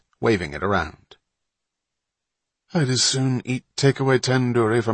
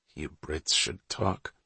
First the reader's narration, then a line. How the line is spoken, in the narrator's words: Wapner mumbled through a mouthful of ice cream